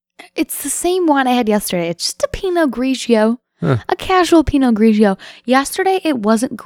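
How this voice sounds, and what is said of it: Usual voice. Nothing is said of it.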